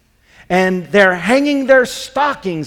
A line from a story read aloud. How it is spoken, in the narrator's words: he snarled with a sneer